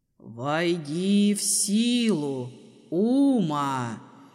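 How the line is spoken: Humming wind voice. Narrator (Russian): Прогудел ветер

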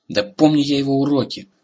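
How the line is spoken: Irritated reply. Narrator (Russian): раздраженно ответил он

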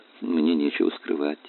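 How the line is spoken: Soft speech. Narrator (Russian): мягко сказал Тхеро

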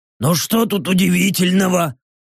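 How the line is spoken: Orc grumbling. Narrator (Russian): проворчал орк

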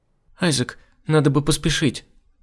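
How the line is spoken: Trembling voice. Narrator (Russian): сказала дрогнувшим голосом Дерхан

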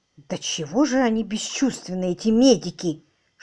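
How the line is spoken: Whisper. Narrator (Russian): шепнул мистер Мерблс

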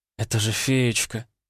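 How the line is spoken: Tearful. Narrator (Russian): сквозь слезы произнесла Тамара

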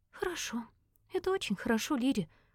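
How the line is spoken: Whisper. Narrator (Russian): прошептала

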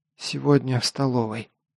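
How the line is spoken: Whisper. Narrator (Russian): прошептала Элина

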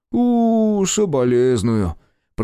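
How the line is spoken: Drawn-out sympathy. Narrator (Russian): протянул парень

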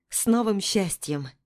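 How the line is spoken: Soft smile, inner sadness. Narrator (Russian): Мягко улыбаюсь, а на душе кошки скребут

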